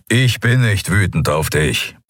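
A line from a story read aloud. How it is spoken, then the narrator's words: Low grumble. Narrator (German): brummte er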